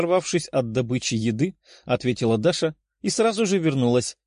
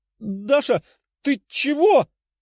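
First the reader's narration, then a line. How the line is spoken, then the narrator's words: Exclaiming woman. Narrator (Russian): воскликнула блондинка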